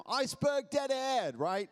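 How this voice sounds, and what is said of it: Attempted British accent. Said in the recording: “try to speak with a British accent? ... I can do better than that”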